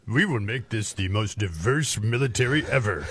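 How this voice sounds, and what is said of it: Imitates another person's voice. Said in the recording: “Thank you, Lloyd Austin. Celebrity voice impersonated.”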